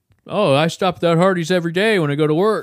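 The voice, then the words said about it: Impression of a friend's voice. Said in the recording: “your Tatton impression... he's a little bit higher... He's a higher range of voice”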